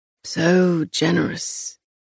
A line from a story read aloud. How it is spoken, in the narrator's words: he rasped